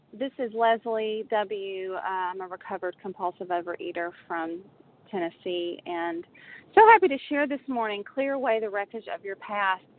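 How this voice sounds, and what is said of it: Southern US accent. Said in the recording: “Maybe it's the Southern accent.”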